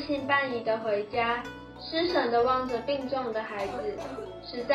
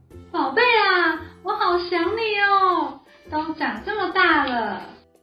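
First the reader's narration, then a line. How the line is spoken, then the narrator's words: Excited shouting. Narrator (Chinese): 兴奋地喊着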